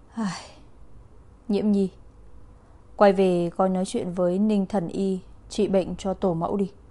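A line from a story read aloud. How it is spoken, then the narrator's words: Uneasy sighing voice. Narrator (Vietnamese): Vân Tử Khiếu cảm thấy không thoải mái, thở dài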